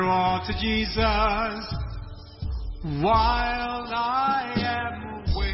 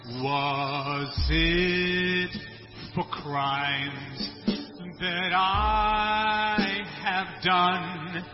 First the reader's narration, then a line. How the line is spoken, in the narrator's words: He groaned